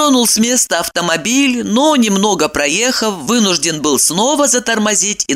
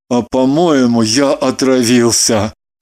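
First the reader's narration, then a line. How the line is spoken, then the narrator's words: Mumbled. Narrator (Russian): промямлил Кириллов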